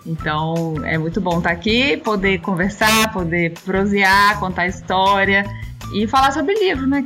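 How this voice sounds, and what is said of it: Brazilian Minas Gerais accent. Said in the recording (Portuguese): “esse sotaque ... sotaque mineiro”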